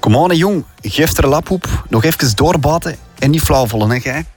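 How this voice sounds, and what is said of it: Put-on Leuven/Antwerp Flemish accent. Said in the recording (Dutch): “Leuven. ... Misschien ook wat Antwerps ... Antwerps, hè”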